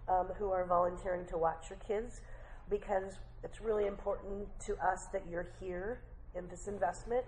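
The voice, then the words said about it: Weakened, not fully recovered voice. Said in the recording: “My cold is gone, but my voice isn't back, so I apologize. I'll try to project for you”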